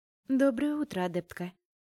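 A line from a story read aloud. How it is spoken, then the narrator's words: Even-toned greeting. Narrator (Russian): Ровным тоном поздоровалась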